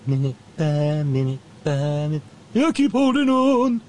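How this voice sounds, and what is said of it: Imitates another person's singing voice. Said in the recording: “my terrible Michael McDonald impression”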